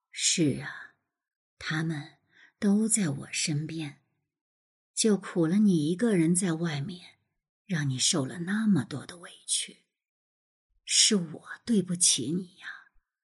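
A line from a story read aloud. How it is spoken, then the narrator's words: Slow. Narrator (Chinese): 萧军 慢慢的说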